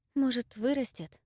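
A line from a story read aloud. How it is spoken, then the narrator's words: Sighing. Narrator (Russian): Вздохнула я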